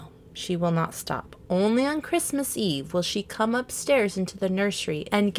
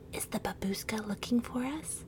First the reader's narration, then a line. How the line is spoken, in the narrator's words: the little children … whisper to each other